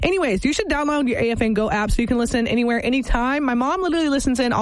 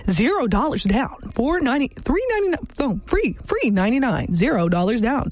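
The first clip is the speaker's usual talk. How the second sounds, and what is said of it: Announcer-style advertisement voice. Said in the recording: “my advertisement voice”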